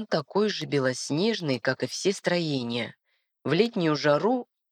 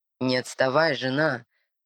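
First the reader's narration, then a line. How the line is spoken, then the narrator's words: Slightly mocking voice. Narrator (Russian): немного насмешливо звучит голос Амирана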